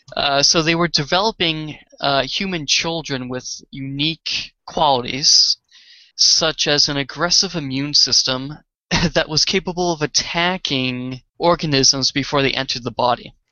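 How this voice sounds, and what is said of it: Boston accent. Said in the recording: “it's my Boston accent.”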